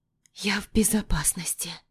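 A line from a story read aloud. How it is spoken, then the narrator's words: Trembling whisper. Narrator (Russian): шепчу дрожащим голосом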